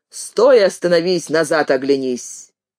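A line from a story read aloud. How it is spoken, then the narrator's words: Loud. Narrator (Russian): Продавец громко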